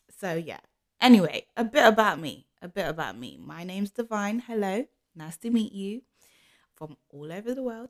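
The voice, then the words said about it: London English accent. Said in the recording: “I am from London, as you can tell from my accent.”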